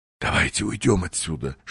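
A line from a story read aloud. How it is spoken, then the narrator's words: Whispered. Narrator (Russian): шепнул Уэллс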